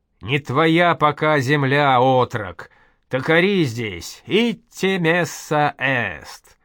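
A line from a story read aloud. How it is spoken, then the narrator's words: Old man, sudden clear, loud. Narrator (Russian): Дед сказал вдруг чисто, громко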